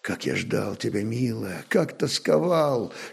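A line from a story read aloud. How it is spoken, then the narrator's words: Breathless passionate whisper. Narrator (Russian): шептал воевода, задыхаясь от страсти и нежности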